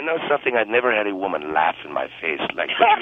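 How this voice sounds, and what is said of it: Funny, possibly phony accent. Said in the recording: “that funny accent ... Why do you say my accent is phony?”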